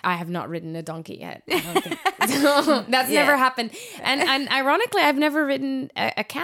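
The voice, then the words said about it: Unusual, hard-to-place accent. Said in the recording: “You can hear my really weird accent.”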